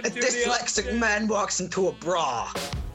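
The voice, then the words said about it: Bad put-on New York accent. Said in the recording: “you want to say in like a really bad New York accent ... you've got to do in a really like New York accent”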